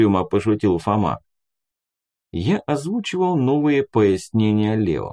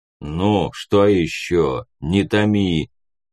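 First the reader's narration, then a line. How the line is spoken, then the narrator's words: Deep bass voice. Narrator (Russian): пробасил Леший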